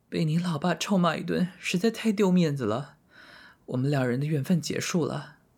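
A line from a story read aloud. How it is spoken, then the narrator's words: Sobbing. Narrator (Chinese): 红玉痛哭流涕的说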